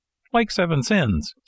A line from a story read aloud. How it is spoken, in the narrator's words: said Pinocchio, still laughing